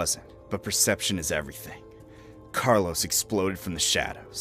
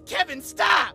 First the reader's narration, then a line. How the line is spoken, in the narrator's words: I shouted